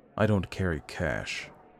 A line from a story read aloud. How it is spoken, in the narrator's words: he said quietly